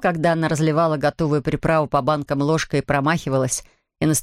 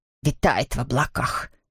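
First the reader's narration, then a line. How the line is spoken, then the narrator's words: Muttering. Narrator (Russian): бормотала она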